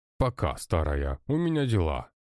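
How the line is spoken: Snide, smiling. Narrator (Russian): ретировался Петрович, ехидно улыбаясь

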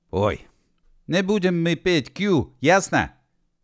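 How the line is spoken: Cracking-voice shout. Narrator (Russian): срывающимся голосом закричал Гедеван

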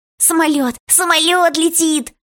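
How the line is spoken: Squeaky shout. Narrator (Russian): Пискляво закричал кто-то

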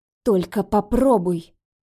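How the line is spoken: Angry hiss. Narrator (Russian): прошипела я, обжигая гневным взглядом

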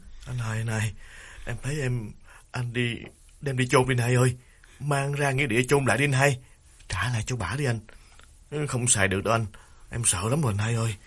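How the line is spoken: Trembling pleading voice. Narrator (Vietnamese): Đào run run chỉ chiết nói

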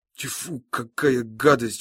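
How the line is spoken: Disgusted mutter. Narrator (Russian): бормочет падла

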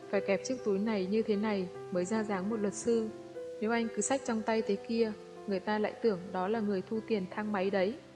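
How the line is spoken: Goofy smiling tone. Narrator (Vietnamese): Lương Duyệt mỉm cười đầy vẻ ngốc nghếch với Hàn Ly

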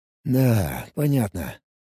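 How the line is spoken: Mumbling. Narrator (Russian): пробормотал я

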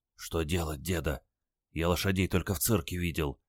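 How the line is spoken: Glum whisper. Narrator (Russian): уныло шепнул он

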